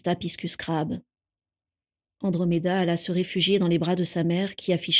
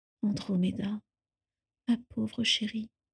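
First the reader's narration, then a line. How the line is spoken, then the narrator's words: Low whisper. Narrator (French): lui chuchota-t-elle à voix basse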